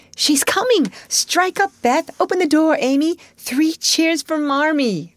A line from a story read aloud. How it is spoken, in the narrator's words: cried Jo, prancing about